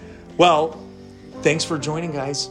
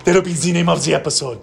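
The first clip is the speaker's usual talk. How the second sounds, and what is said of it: Put-on French accent. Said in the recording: “That's my French accent.”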